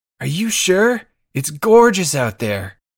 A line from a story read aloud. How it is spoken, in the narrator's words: Jack, being an asshole, yells out